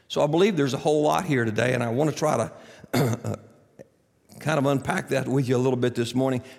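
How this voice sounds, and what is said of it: Scratchy, hoarse voice. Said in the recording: “forgive my voice ... whatever it is, it's already gotten hold of my voice, and you're going to have to put up with some scratchy talking this morning”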